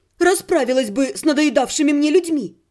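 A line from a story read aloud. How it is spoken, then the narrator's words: Snapping retort. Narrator (Russian): огрызнулась я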